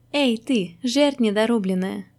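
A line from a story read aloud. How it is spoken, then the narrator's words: Almost affectionate slipper greeting. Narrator (Russian): почти ласково поприветствовал левый тапок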